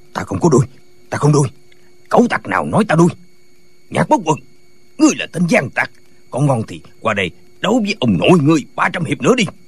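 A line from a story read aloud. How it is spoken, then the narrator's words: Angry shout. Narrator (Vietnamese): Tả Lãnh Thiền tức giận quát lên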